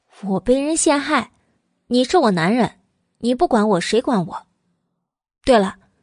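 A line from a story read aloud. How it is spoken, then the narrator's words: Playful laughing tone. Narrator (Chinese): 慕容九九俏皮的一笑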